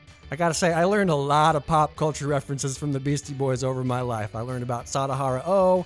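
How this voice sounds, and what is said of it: Usual voice. Nothing is said of it.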